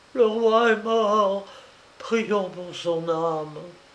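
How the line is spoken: Sobbing tearful cry. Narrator (French): éclata en sanglots et s'écria d'une voix remplie de larmes

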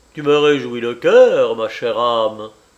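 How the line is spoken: Exclaimed. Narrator (French): s'écria Paul Pietrovitch

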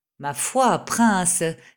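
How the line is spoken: Exclaiming. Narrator (French): s'exclama Roederer

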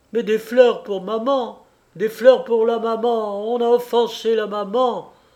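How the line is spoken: Sudden exclamation. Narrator (French): s'écria-t-il soudain

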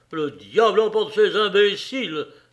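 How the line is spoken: Exasperated moneylender roaring. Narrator (French): rugit l'usurier exaspéré

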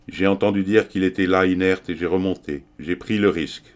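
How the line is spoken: Plain. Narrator (French): dit le russe

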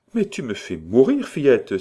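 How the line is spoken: Exclaiming. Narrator (French): s'écria Paul

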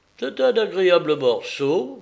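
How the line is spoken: Patronizing tone. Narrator (French): dit Fulvius d'un ton protecteur

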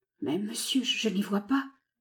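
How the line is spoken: Murmur. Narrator (French): murmura-t'elle

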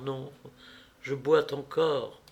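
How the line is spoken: Very soft. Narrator (French): dit-elle tout doucement

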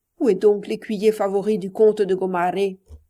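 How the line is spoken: Mocking tone. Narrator (French): ses pages et ses bouffons diraient d'un ton moqueur

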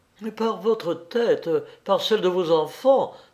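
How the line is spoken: Exclaimed. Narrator (French): s'écria Gobert Ali

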